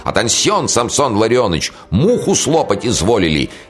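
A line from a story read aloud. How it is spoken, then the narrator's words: Joking, yelling. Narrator (Russian): Капитан, ни на минуту не умолкавший и беспрестанно балагуривший, заорал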